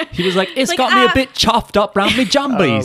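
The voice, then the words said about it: Put-on British accent. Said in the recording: “a British accent ... Nailed it. Proper chuffed is good.”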